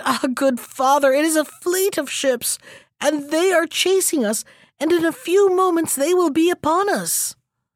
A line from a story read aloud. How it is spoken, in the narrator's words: The youth shrieked and cried